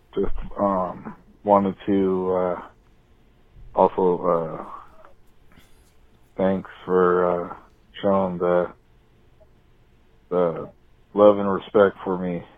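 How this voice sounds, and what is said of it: Deep polished radio voice. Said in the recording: “with a great radio voice.”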